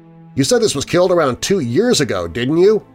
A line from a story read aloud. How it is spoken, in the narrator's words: said Mark